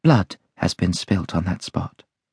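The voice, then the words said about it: Low, mysterious voice. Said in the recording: “in a low voice. ... answered in the same low, mysterious voice”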